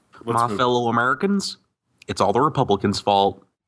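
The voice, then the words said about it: Barack Obama impression. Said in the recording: “that's Obama. That's Obama.”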